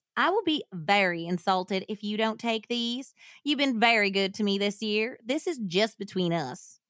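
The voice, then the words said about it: Put-on Louisiana/Southern US accent. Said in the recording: “a Sookie ... accent ... that's like a New Orleans or like Louisiana, Mississippi accent”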